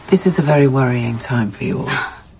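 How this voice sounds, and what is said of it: Soft, soothing voice. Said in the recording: “in a stupid soft voice”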